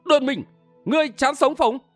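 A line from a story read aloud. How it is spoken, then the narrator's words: Loud shout. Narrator (Vietnamese): Châu Thiên Nhậm quát lớn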